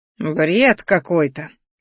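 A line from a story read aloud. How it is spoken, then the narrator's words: Snorting. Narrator (Russian): фыркнул огневолосый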